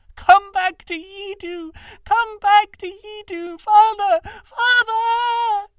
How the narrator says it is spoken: The quavering, childish voice rose to a shriek, and then broke

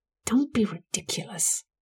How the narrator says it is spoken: Amanda hissed

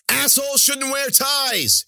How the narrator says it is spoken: she cried

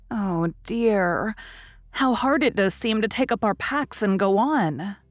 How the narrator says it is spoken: sighed Meg the morning after the party

